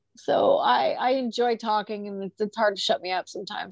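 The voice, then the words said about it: Strained, fading voice. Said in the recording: “I'm already losing my voice in this”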